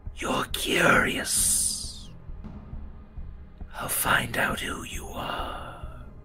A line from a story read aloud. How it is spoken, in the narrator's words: that ghostly figure next to you fades, it again whispers